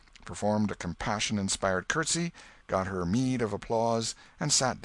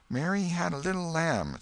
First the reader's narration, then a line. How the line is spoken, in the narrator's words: A little shame-faced girl lisped